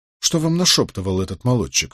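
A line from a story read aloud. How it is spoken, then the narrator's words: Plain question. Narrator (Russian): спросил Николас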